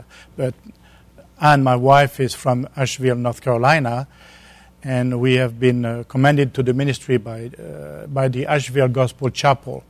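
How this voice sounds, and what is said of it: Southern French accent. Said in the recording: “my southern accent, because it's an accent from the south of France”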